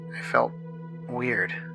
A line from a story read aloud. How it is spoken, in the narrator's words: I murmured